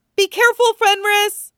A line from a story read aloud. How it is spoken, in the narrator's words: Meryl cried